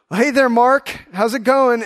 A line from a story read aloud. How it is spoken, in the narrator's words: he yells down